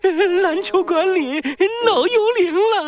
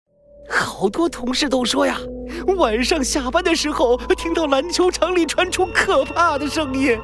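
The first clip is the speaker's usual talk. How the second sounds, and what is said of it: Nervous hushed whisper. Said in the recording (Chinese): “神经兮兮地朝两边看了看，小声地说”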